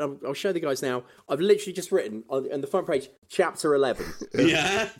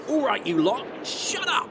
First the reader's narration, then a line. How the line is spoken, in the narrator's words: He barked above the din